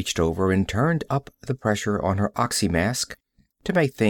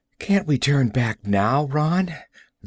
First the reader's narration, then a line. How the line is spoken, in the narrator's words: Val pleaded